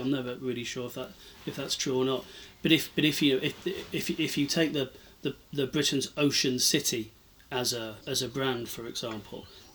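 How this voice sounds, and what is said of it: Plymouth English accent. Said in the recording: “as you can tell from my accent, I'm from Plymouth originally”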